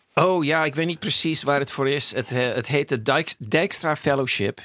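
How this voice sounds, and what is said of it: Dutch with an American accent. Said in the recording (Dutch): “Je hebt een prachtig Amerikaans accent opgedaan.”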